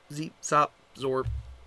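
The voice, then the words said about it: Robotic voice. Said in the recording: “Robot voice.”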